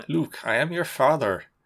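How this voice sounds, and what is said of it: Put-on thick Yorkshire accent. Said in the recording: “a thick fucking Yorkshire accent doing Darth Vader”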